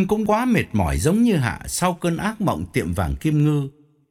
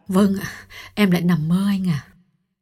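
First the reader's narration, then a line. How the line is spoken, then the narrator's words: Trembling reply. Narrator (Vietnamese): run run đáp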